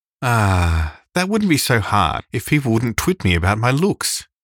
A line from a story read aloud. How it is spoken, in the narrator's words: said Anne with a sigh